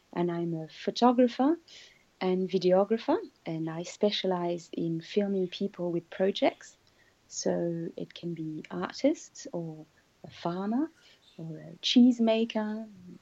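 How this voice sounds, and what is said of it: French accent. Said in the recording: “your beautiful accent ... I'm French.”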